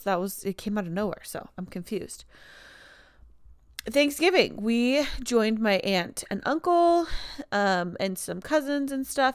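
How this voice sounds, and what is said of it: Congested, nasal voice. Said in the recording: “my voice is sounding so weird all of a sudden... I guess I can't breathe through my nose”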